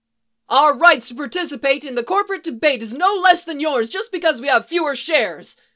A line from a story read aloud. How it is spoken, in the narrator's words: another one yelled